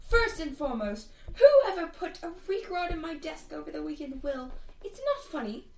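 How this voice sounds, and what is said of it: Poorly done character voice. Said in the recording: “That's a terrible Alina voice”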